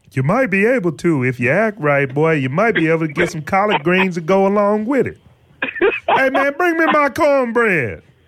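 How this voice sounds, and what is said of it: Imitates another person's voice. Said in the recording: “that Charles Barkley impression”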